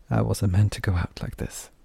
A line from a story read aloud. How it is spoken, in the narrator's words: she whispered, making a not entirely unconvincing impression of crying